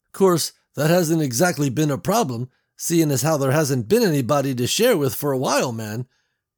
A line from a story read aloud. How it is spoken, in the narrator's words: he said, then chuckled